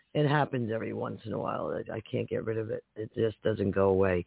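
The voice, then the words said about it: Hoarse voice. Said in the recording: “I'm very hoarse today.”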